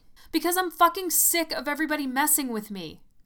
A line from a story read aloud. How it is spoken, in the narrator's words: I screamed